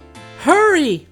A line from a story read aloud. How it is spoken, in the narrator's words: cried Chick